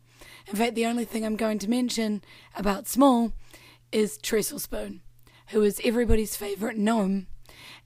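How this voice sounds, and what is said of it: Strained, worn-out hoarse voice. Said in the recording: “my voice is pretty screwed, and that's because I had a band gig last night, and then a big D&D gig today”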